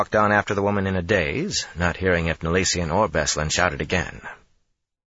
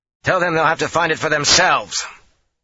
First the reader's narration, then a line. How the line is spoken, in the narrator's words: Matt shouted back absently over his shoulder